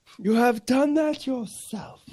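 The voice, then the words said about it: Imitates a film character's accent. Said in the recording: “did I do that accent all right? ... That was quite good. That was good, that.”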